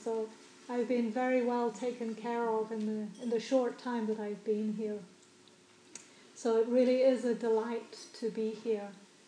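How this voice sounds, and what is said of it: Slight New Zealand accent. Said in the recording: “just a slight trace of a foreign accent. I actually grew up in New Zealand”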